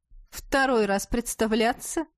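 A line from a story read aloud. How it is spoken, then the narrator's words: Mocking question. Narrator (Russian): Насмешливо поинтересовался Иден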